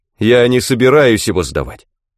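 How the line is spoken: Angry near-shout. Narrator (Russian): Чуть было не прокричал я, так меня разозлила его надменная улыбка экзаменатора

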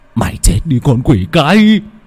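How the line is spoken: Nurse's hiss. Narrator (Vietnamese): một y tá rít lên

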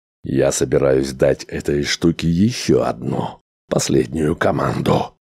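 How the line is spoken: Hoarse reply. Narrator (Russian): хрипло ответил Грегор

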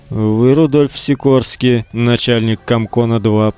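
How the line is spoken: Quiet, colorless voice. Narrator (Russian): произнёс он тихим, удивительно бесцветным голосом

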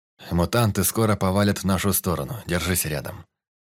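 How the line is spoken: Calm. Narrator (Russian): сказал спокойно

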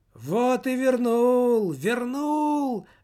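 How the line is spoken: Wailing yell. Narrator (Russian): завопил нищий

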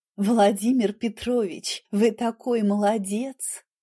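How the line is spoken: Melodic, slightly husky voice. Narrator (Russian): Ее голос был мелодичным, с легкой хрипотцой, которая мужчинам кажется сексуальной

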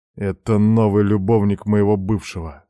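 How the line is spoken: Muttering through teeth. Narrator (Russian): сквозь зубы бормочу

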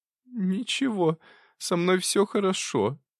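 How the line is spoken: Moaning. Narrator (Russian): простонала она

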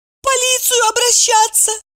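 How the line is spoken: Tearful squeak. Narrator (Russian): сквозь слезы пискнула Евдокия

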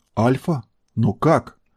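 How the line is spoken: Barely audible question. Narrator (Russian): еле слышно спросил Серый

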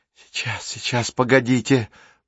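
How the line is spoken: Muttered. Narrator (Russian): бормотала

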